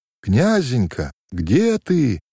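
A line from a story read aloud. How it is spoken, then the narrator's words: Distant, muffled. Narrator (Russian): Откуда-то издалека глухо донеслось до его ушей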